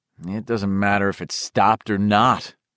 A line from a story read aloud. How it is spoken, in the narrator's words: Eddie said gloomily